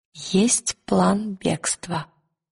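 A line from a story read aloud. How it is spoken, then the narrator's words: Quiet. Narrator (Russian): тихо сказала Лира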